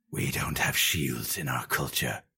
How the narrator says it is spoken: murmured Versidu Shai

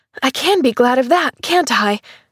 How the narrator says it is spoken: She cried

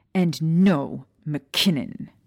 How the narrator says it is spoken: she growled viciously

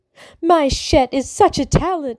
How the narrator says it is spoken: she said loudly enough for everyone, including Tumble, to hear

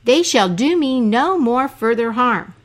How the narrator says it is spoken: Abu Qasim cried

